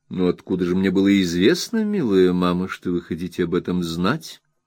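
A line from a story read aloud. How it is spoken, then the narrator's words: Calm reply. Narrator (Russian): спокойно ответила миссис Стронг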